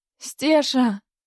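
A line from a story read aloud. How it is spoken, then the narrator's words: Hoarse call. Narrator (Russian): хрипло позвала она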